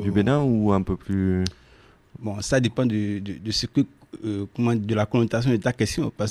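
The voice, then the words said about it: French with a noticeable accent. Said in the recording (French): “certainement, nos auditeurs entendent que tu as un accent”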